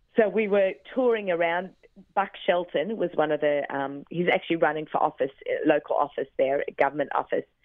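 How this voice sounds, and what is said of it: Australian accent. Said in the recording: “me and my Australian accent”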